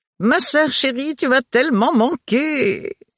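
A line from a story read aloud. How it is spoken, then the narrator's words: Exclaimed. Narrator (French): s'écria Agathe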